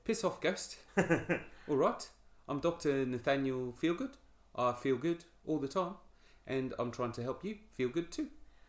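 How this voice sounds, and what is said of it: Korg impression accent. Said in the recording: “Should I do an accent? ... Could try and crack out my Korg and see if that'll work for it. How does he say?”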